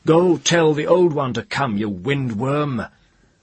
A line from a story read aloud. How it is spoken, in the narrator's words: he laughed and shouted